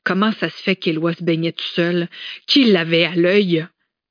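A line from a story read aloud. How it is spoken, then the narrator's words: Sudden angry question. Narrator (French): avait-il soudainement questionné d'un ton rageur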